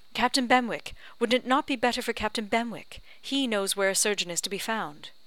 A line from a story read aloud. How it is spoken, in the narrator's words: Anne eagerly suggested